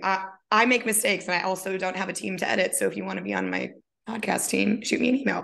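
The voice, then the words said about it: Raspy voice. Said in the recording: “I sound a little raspy”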